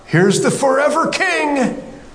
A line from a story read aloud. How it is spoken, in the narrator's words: John didn't yell out